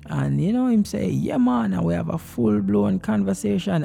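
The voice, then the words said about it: Jamaican accent. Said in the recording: “as a Jamaican ... it is very good to keep your accent”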